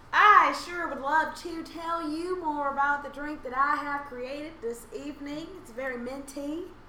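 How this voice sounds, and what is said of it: Put-on hillbilly Southern accent. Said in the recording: “What in the hillbilly is this accent?”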